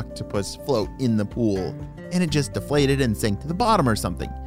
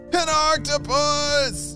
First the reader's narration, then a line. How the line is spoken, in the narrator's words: shouted Julius